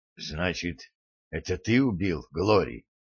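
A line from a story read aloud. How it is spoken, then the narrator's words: Suddenly hoarse question. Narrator (Russian): внезапно севшим голосом спросил Гарри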